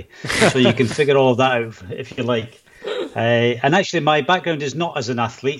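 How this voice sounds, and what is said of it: Scottish accent. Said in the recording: “I can tell where your accent's from ... I am actually from Scotland”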